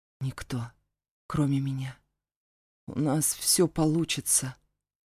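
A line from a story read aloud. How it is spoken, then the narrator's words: Hoarse objection. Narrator (Russian): хрипло возразил я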